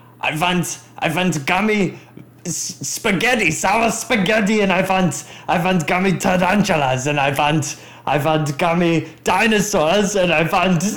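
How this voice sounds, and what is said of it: Shouted impression of a German man. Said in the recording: “my impression of Mr. Haribo ... Stop shouting. Like, I'm German.”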